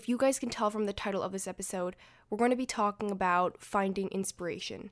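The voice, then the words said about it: Raspy, congested voice. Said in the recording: “my voice is a little raspy, and so is my nose, it's a little clogged today”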